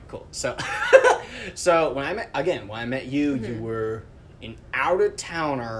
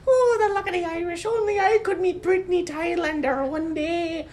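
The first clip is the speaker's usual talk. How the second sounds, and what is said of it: Put-on Irish leprechaun accent. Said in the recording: “I'm also Irish or Scottish ... You're just doing a leprechaun impression.”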